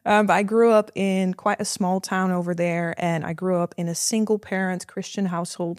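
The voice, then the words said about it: Dutch accent in English. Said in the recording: “I'm from the Netherlands. That's why my accent is a bit weird.”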